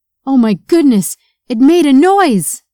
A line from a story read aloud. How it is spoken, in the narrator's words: Jacob screamed